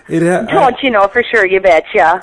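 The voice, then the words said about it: Exaggerated put-on Minnesota accent. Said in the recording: “You really broke out the accent there.”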